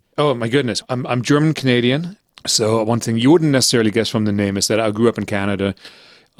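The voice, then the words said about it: German accent. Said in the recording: “my family is entirely German ... First Germany, hence the accent”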